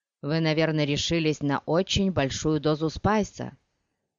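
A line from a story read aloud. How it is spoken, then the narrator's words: Plain. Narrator (Russian): спросил Хейт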